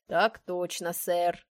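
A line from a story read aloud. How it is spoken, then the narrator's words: Booming bass reply. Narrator (Russian): зычным басом ответил Джон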